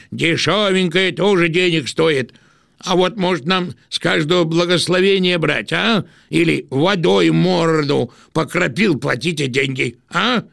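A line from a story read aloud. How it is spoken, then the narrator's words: Shouting. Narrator (Russian): Кто-нибудь крикнул, наверное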